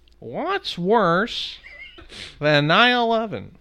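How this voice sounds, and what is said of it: Imitates another person's voice. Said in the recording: “my Neil Hamburger impression ... would you do a little Neil Hamburger for us?”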